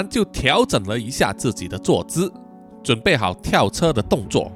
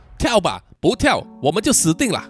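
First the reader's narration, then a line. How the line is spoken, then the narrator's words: Shouting. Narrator (Chinese): 嘉文大喊说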